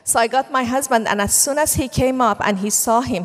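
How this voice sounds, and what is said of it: Iranian accent in English. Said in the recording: “by my accent, he immediately knew I was Iranian”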